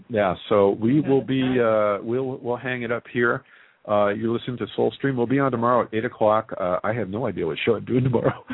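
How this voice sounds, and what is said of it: Hoarse, fading voice. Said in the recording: “I am losing my voice. ... I know. I noticed that.”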